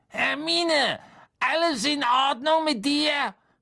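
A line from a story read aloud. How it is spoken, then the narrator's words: Calling through a door. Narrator (German): rief Harry durch die Tür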